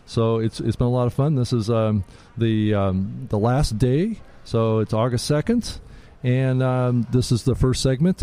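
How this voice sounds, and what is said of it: Slightly hoarse voice. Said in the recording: “my voice is a little hoarse ... talking a lot”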